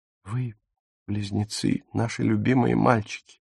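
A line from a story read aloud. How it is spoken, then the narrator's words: Gentle speech. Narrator (Russian): мягко сказала Фрида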